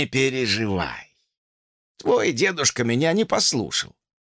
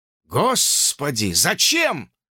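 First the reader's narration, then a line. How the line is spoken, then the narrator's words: Exclaimed. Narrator (Russian): воскликнул Джордж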